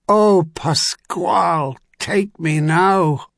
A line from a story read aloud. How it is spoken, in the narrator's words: Travis Sailkirk groaned